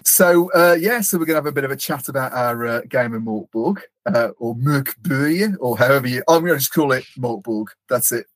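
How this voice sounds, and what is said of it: Birmingham English accent. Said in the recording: “I've got a Birmingham accent. Pretty much anything I say sounds wrong anyway.”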